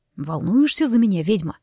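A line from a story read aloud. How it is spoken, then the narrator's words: Wry snort. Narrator (Russian): Неожиданно хмыкнул Руслан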